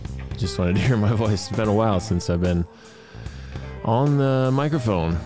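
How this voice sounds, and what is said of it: Usual voice. Nothing is said of it.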